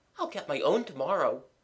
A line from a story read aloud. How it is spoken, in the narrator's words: said Mabel cheerfully